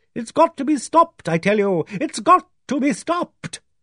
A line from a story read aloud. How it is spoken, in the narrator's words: Dane Calthrop cried energetically